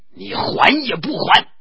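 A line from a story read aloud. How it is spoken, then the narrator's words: Uncontrollable anger. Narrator (Chinese): 宋江怒气直起，哪里按捺得住，道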